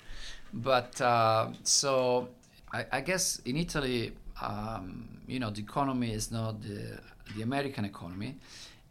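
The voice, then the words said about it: Thick Italian accent. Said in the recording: “I'm from Italy. You probably can tell from my very thick accent.”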